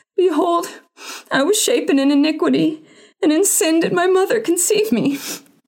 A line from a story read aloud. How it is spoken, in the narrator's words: cried out